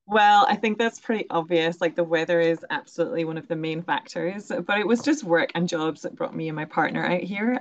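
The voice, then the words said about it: Scottish accent. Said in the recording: “you have a lovely Scottish accent”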